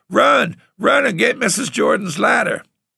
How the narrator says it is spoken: I hollered

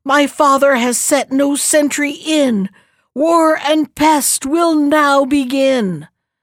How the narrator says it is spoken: Then she screamed again

